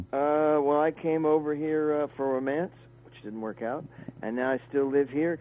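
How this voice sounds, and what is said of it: Kentucky American accent. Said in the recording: “obviously that's not a London accent I'm hearing there ... I'm from Kentucky”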